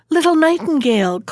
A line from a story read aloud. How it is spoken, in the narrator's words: called out the little kitchen maid